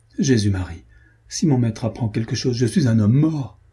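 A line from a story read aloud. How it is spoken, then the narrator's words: Exclaimed, alarmed squire. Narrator (French): s'écria l'écuyer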